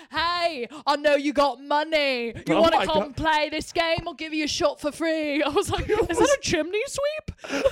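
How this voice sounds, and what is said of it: Put-on Cockney accent. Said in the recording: “they all had like Cockney accents”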